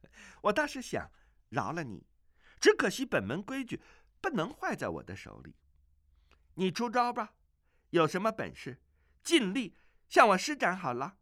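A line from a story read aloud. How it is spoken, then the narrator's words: Coquettish giggling. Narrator (Chinese): 阿紫是咯咯娇笑，说道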